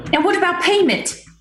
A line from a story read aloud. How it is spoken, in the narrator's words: shouted